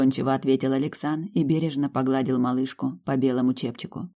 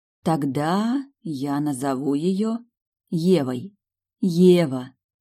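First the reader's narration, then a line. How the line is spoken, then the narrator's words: Tender drawl. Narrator (Russian): протянула ласково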